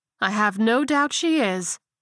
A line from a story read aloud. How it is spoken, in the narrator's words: the older woman exclaimed